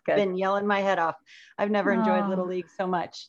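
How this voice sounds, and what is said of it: Scratchy, hoarse voice. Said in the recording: “I've got a little bit of Little League laryngitis, so my voice is a little scratchy.”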